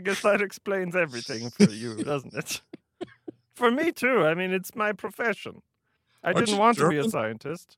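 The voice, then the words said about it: Put-on German accent. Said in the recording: “Aren't you German, doctor? ... My accent is very scientific ... a standard German person”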